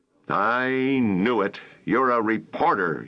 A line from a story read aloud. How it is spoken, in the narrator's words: he snarled